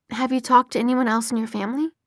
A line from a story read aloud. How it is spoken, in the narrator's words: Maya asked, her voice soft